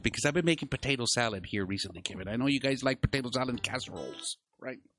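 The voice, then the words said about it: Put-on stereotypical white-person voice. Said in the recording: “put in my white voice”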